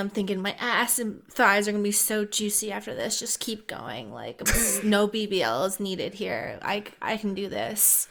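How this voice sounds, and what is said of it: Baby voice. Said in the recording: “doing that baby voice”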